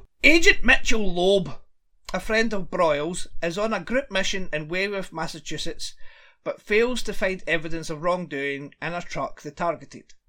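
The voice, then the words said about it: Scottish accent. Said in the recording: “It just sounds weird coming from a Scottish accent.”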